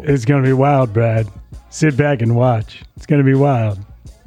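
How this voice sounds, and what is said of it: Imitates another person's voice. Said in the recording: “my fourth attempt at my Ian Cunningham impression ... It's getting worse ... your impression sucks”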